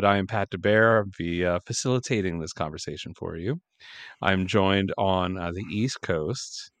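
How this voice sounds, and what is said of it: Smooth light FM radio voice. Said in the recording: “I just slid into like light FM radio voice.”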